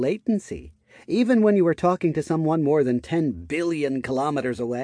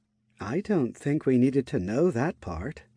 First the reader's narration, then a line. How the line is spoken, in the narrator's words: Maria muttered under her breath